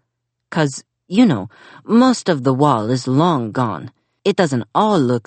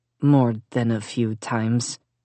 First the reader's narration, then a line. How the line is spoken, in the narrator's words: Melissa mumbled